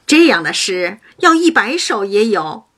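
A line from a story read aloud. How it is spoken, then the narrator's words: Laughing. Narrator (Chinese): 黛玉笑道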